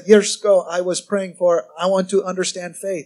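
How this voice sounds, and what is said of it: Soft-spoken imitated Korean accent. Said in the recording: “he's Korean, so I love his accent and the way he talks. I can't do it right, but I'm going to do it anyway. It's just cute. He's very soft guy. He talked like this.”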